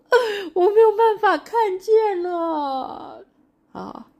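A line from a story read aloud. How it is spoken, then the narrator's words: Crying. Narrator (Chinese): 他就哭了，说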